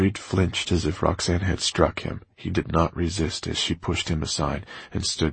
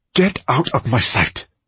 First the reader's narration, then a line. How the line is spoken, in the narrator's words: Roxanne snapped at him